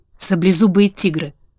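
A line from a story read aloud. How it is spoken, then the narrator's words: Trembling frightened whisper. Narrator (Russian): прошептал лев, дрожа как лист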